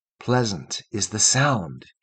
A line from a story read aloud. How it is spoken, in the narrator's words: he murmured